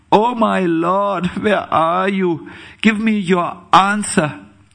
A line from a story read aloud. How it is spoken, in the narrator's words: Thus the devotee cries loudly